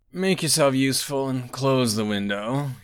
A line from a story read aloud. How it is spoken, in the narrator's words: moaned